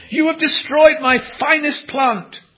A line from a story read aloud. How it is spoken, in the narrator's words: when the gardener saw what the little girl had done, he exclaimed